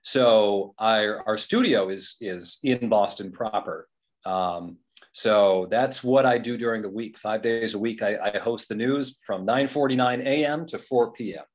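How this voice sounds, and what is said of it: Polished radio announcer voice. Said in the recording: “you got the radio voice”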